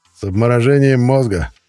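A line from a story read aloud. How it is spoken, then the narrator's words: Chuckle, man's voice. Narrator (Russian): хохотнули голосом Алексея Ивановича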